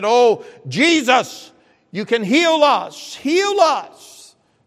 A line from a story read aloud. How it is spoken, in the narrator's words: 10 lepers that cried unto Him and said